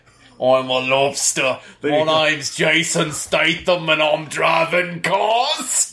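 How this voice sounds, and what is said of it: Gravelly British accent impression. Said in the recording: “gravelly British accent ... Oh, you want to hear how to do it? ... That's accurate.”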